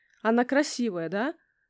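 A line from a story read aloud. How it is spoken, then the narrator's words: Calm, detached question. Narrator (Russian): спросила Ксюша спокойно и отстраненно, словно речь шла о картине в галерее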